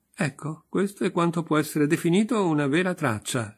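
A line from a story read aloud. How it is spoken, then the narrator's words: Laughing exclamation. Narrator (Italian): esclamò Liebedev, ridendo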